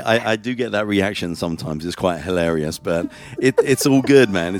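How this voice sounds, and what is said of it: UK accent. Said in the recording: “that accent from the UK”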